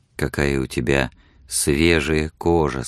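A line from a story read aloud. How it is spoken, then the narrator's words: Plain. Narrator (Russian): сказал он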